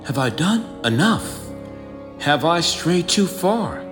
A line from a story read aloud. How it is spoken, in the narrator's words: The observer whispers, hesitant